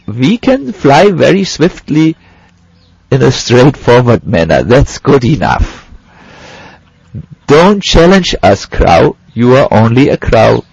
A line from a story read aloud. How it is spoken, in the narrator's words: The swans laughed and said